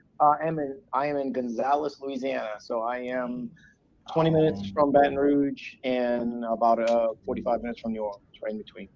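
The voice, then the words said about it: Southern US accent. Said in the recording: “Are you in the South? ... Cool accent.”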